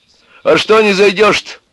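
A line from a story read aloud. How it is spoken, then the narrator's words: Shouting from a distance. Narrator (Russian): крикнул Егору с крыльца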